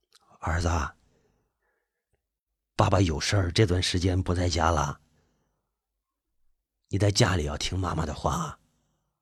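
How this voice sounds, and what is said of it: Soft, gentle voice. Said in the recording (Chinese): “用很柔和的声音说着”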